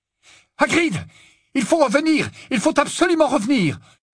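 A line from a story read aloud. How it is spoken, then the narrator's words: Yelling over roaring engine. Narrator (French): hurla-t-il, essayant de couvrir le vrombissement du moteur qui résonnait comme un tonnerre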